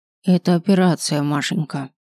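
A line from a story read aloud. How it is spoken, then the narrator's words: Gloomy. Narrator (Russian): мрачно сказала бабушка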